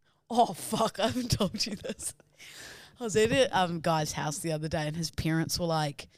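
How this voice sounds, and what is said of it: Usual voice. Nothing is said of it.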